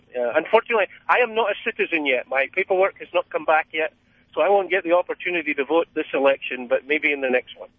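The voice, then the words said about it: Scottish accent. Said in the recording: “you seem to have a bit of a dialect there ... I'm originally from Scotland ... I have a feeling that you might be from Scotland”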